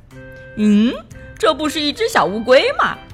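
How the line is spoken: Laughing. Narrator (Chinese): 波马笑着说

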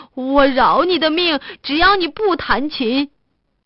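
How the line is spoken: Weak, exhausted cry. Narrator (Chinese): 法官有气无力的叫道

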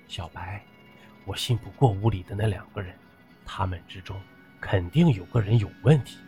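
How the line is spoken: Hushed. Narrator (Chinese): 段墨压低声音说

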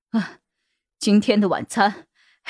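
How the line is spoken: Panting. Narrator (Chinese): 喘着气儿

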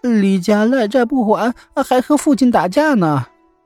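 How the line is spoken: Crying. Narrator (Chinese): 阿小哭着回来，说

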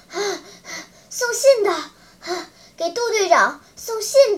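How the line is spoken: Breathless, hurried reply. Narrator (Chinese): 雨来由于刚才一阵奔跑，喘息着，用那种急促的语调回答

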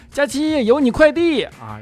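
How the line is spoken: Shout from downstairs. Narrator (Chinese): 就听见楼下喊

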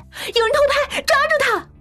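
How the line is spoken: Loud shouting. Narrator (Chinese): 白歆，他一边大喊

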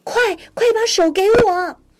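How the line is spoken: Shouting. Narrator (Chinese): 小刺猬大声的喊道

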